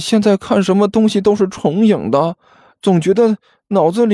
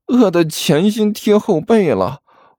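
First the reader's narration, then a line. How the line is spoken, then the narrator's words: Glum, whining. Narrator (Chinese): 汪旭哭丧着脸说道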